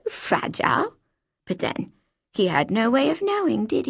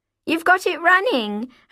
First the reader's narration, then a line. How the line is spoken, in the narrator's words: I shouted